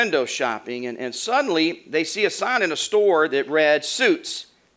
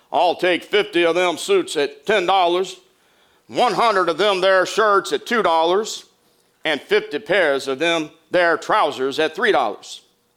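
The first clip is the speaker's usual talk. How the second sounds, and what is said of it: Fake slow Texas drawl. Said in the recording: “a very slow Texas drawl ... his best fake Texas drawl”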